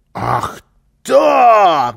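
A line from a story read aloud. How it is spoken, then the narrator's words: Shouting. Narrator (Russian): закричал Карлсон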